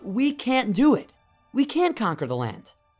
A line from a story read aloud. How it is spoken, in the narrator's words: The spies cried out